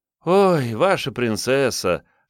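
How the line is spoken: Noisy exhale. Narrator (Russian): шумно выдохнула Варвара

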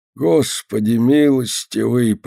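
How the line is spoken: Old man's groan. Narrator (Russian): простонал старик

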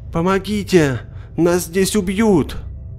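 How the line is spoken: Distant shout. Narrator (Russian): крикнул кто-то из-за холма

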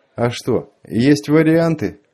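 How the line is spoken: Lazy, slightly slurred. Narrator (Russian): Лениво и чуть заплетаясь языком отозвался землянин

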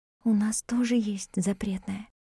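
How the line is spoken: Quiet. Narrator (Russian): тихо сказала Мартина

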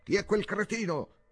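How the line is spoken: Prince yelling at full volume. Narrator (Italian): urlò il principe a squarciagola

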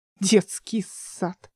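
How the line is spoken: Drawled under breath. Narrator (Russian): протянула она себе под нос

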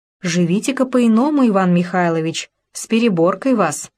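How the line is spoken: Singsong, affectionate. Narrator (Russian): Степанида Петровна заговорила певуче ласково

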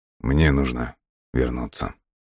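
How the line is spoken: Quiet but confident, man. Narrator (Russian): тихо, но уверенно произнес он

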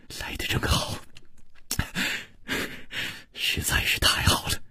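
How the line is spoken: Soft, gentle. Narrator (Chinese): 楚留香…柔声说

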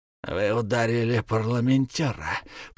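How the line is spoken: Hissed. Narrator (Russian): прошипел

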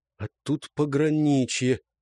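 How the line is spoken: Mutter. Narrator (Russian): пробормотал Светил

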